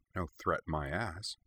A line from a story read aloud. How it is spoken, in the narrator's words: Lindsay muttered